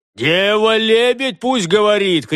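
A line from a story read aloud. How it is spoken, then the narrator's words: Shouted. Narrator (Russian): крикнул он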